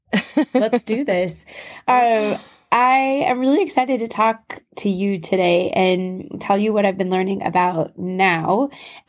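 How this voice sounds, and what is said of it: Husky, hoarse voice. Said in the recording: “my husky voice that you're getting. My new I do laryngitis voice.”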